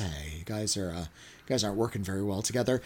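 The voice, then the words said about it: Staid, sultry bedroom voice. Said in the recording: “has this really kind of staid bedroom voice.”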